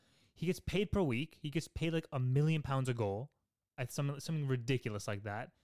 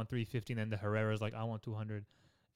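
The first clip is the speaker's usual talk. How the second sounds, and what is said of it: Slight put-on Spanish accent. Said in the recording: “Added a little bit of a Spanish accent there.”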